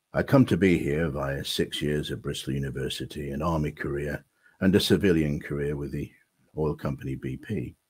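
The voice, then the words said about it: Lancashire accent with a lilt. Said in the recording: “I'm originally a Lancashire lad, and I suppose you can tell that from the lilt in my voice and my accent”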